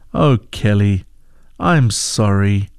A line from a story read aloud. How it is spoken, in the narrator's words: said Mom